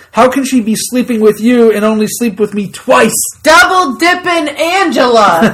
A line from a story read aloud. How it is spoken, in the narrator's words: Andy yells